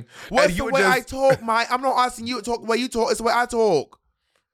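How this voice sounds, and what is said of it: Put-on British accent, yelling. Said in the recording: “Can we do the rest of this watchery in English accents? ... you start yelling ... when you go British”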